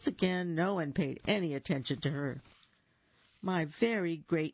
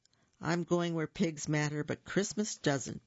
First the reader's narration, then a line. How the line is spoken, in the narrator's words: announced in a shaking voice